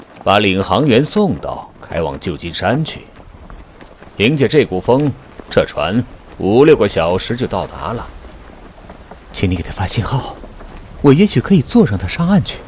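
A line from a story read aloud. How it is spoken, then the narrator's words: Cold. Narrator (Chinese): 朗拉森冷冷地说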